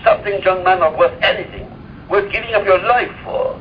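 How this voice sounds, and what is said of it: Old man character voice, accented. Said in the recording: “the accent that you're using for the old man Abraham”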